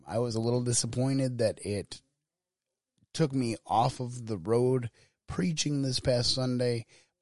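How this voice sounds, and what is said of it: Weak voice. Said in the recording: “my voice sounds a little weak. That is because I am in the process of hopefully recovering from a cold.”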